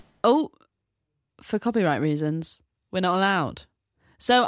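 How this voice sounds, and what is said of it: Usual voice. Nothing is said of it.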